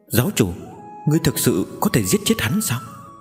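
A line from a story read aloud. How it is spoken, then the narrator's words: Soft. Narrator (Vietnamese): Giang Mễu khẽ nói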